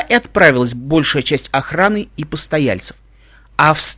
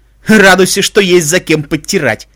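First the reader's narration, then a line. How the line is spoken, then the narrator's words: Laughing. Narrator (Russian): хохотнул охранник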